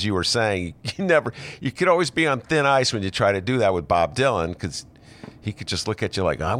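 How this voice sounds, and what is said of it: Usual voice. Nothing is said of it.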